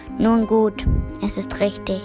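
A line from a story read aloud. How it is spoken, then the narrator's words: Annoyed goblin muttering. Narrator (German): Voll Verdruss, murmelte der Kobold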